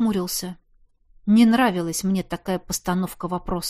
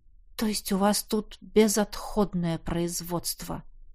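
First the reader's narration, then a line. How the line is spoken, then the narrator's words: Muttered. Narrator (Russian): пробормотал я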